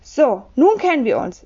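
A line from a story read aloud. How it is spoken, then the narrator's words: Plain. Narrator (German): sagte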